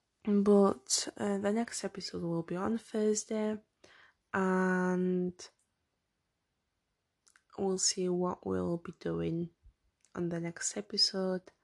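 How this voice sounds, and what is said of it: Strained, fading voice. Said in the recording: “I'm losing my voice right now. Again, from the talking.”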